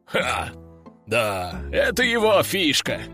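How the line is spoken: Loud laughter. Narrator (Russian): расхохотался генерал

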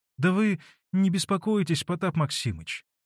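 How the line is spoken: Timid. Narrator (Russian): робко вступилась Марья Гавриловна

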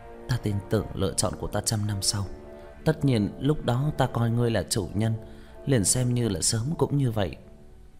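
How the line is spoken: Hesitant, sighing. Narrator (Vietnamese): Mỹ Hoa ... tự hồ do dự, cũng thở dài

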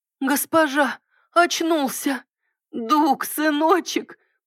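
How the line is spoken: Woman's choked rasp. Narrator (Russian): прохрипела женщина, гулко сглатывая застывший в горле ком

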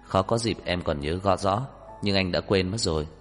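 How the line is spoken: Smiling. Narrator (Vietnamese): Trang Hạo Nhiên chỉ mỉm cười

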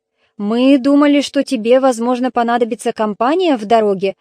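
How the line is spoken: Plain. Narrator (Russian): ответил Калиадес

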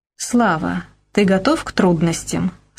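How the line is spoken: Solemn question. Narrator (Russian): спросила я торжественно

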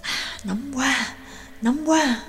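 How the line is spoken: Low muttering. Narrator (Vietnamese): Trương Lập và Nhạc Dương thấp giọng lẩm bẩm

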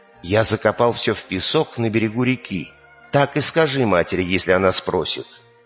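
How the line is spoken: Whispering. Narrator (Russian): Стал шептать ему

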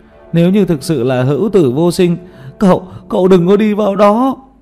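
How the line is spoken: Sudden alarmed cry. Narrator (Vietnamese): Tiểu Mã thất thanh kêu lên

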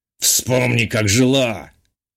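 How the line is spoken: Scoffing snort. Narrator (Russian): хмыкнул Батый

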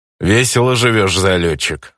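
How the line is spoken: Goblin's snort. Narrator (Russian): хмыкнул гоблин

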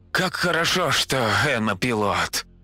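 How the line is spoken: Tired exhale. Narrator (Russian): Лиса устало выдохнула

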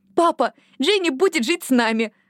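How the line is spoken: Excited exclamation. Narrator (Russian): воскликнула Лили

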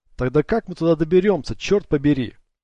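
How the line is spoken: Involuntary shout. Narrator (Russian): прокричал Ник, хоть и не собирался кричать

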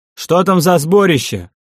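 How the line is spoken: Shouting. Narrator (Russian): крикнул Дарк Силерею

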